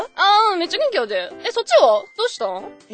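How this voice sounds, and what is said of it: Speaks in Kansai dialect. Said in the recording (Japanese): “今、関西弁を出す感じですか？ ... え、じゃあちょっとだけ関西弁で”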